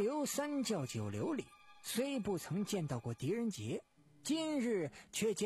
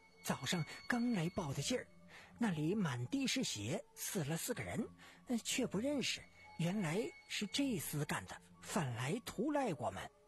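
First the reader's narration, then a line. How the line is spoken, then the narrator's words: Alarmed whisper. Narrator (Chinese): 账房变了脸色，挨近郎刘耳边小声地说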